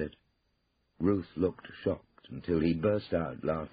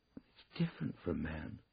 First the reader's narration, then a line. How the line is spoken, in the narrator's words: said Ruth wistfully